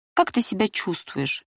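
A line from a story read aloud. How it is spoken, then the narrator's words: Tender question. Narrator (Russian): нежно спрашивал он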